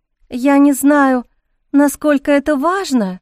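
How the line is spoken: Uncertain drawl. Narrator (Russian): неуверенно протянула подруга

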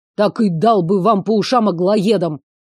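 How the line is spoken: Old man's growl. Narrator (Russian): Рыкнул дед

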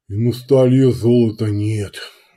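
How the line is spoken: Sighing. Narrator (Russian): вздохнул трубка

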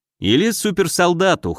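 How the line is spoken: Wry snort. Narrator (Russian): хмыкнул я

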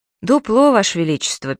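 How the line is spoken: Sad. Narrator (Russian): печально сказал лейб-медик

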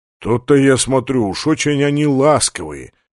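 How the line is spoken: Grumbling. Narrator (Russian): проворчал полубой

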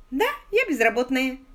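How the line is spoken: Cheerful. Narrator (Russian): весело сказала Сью

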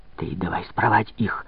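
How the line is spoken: Repeated in a whisper. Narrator (Russian): повторил тоже шепотом

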